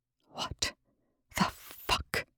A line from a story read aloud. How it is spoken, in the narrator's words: Rush breathed